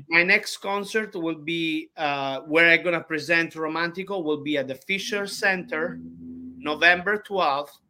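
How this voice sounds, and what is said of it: Noticeable non-native English accent. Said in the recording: “he take a fun of me for my accent. But I believe I have a very cute accent.”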